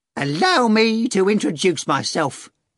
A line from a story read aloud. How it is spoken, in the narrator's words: Korovyov screeched